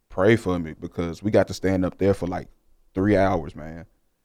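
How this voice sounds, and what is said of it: Hoarse, worn-out voice. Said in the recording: “one reason why my voice is gone, but I got 2 weeks to get it back”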